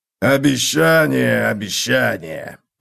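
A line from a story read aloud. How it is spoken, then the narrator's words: Grumbling. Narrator (Russian): проворчал Готрек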